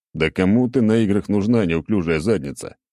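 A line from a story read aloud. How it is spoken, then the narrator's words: Scoffing snort. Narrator (Russian): хмыкнул я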